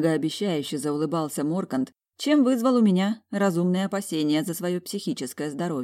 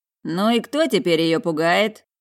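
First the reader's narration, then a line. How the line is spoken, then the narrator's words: Wry snort. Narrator (Russian): хмыкнул Мор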